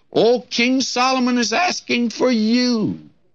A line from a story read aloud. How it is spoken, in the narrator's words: someone comes to her excitedly and says to her, says